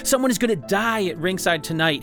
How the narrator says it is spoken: he shouted at Sonny

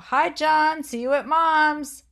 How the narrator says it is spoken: She yelled out her window

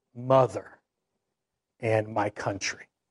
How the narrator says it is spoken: as he was dying, he whispered

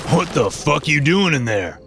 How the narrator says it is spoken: Petey called, laughing

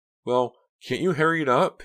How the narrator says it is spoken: Pam asked anxiously, her voice so high-pitched she didn't recognize it

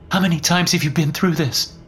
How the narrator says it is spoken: Cassandra asked, her voice still shaky

